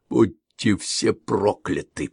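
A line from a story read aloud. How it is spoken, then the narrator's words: Through gritted teeth. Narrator (Russian): процедил Шава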